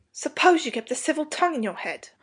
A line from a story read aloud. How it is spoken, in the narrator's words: Robert snapped